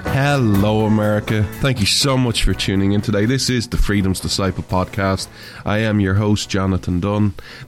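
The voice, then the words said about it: Irish accent. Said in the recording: “This Irishman stands with America... where you come for the accent”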